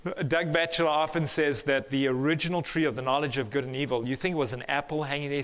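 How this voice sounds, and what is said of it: South African-influenced accent. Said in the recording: “the one campus I used to live at in South Africa. That's where my accent is from.”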